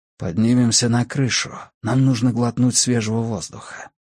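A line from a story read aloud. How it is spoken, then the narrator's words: Whisper in the ear. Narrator (Russian): его голос прошептал ей на ухо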